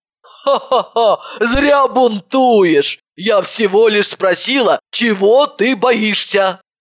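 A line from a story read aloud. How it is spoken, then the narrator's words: Laughing. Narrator (Russian): Просто рассмеялась и сказала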